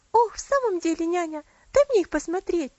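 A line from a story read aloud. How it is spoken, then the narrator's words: Impatient exclamation. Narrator (Russian): с нетерпением воскликнула Элси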